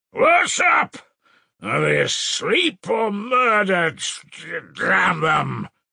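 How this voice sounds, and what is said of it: Thick, bawling shouted voice. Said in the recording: “he bawled in a thick voice”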